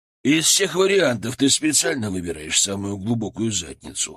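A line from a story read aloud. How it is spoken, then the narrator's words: Wry snort. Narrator (Russian): хмыкнул Сергей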